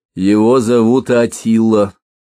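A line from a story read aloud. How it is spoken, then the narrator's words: Plain. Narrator (Russian): ответил горбун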